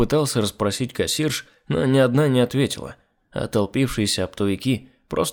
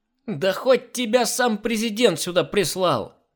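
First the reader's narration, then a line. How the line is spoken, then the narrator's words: Crow-like woman yelling. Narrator (Russian): заорала тощая, похожая на большую ворону женщина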